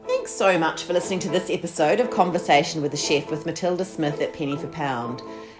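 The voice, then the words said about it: New Zealand accent. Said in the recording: “my New Zealand accent”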